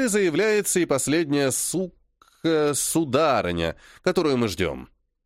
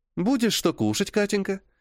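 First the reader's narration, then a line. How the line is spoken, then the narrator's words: Cheerful, smiling. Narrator (Russian): Весело улыбается Камила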